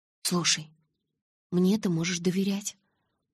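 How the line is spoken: Whisper. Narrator (Russian): прошептала я

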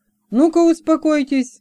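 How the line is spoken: Barking. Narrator (Russian): гаркнул

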